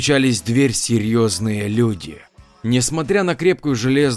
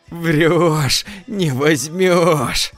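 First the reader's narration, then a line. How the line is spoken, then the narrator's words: Loud laughter. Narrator (Russian): захохотал он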